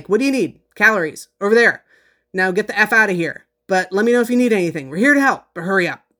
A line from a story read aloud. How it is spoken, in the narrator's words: he barked something like